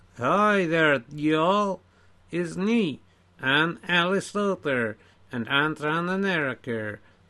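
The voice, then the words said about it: Put-on American accent. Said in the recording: “some American version of you ... listen to my accent”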